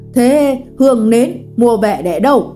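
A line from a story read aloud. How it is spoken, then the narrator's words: Woman shouting again. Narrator (Vietnamese): bà lại quát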